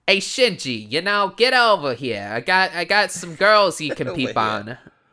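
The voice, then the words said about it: Put-on Brooklyn accent. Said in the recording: “Put on a Brooklyn accent”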